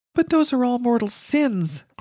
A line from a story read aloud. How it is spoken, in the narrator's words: Claudia cried